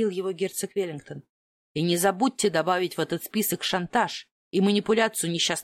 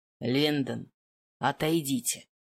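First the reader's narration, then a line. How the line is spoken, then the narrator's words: Hissing. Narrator (Russian): прошипел герцог Веллингтон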